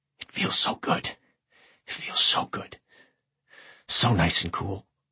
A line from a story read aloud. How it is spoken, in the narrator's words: He could barely talk, but he whispered